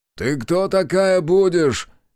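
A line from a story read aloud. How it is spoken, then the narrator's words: Shouting. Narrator (Russian): крикнул он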